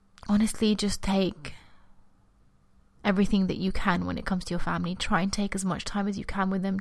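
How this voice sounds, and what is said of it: Teary, choked-up voice. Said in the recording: “I have, like, this big ball in my throat ... I'm getting all teary”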